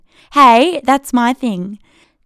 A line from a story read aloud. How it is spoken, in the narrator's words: Tess shouted after Lee, playfully